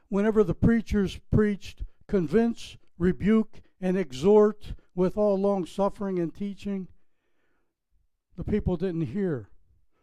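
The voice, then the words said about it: Pittsburgh accent. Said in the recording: “My hometown, Pittsburgh, Pennsylvania, if you picked up on my accent”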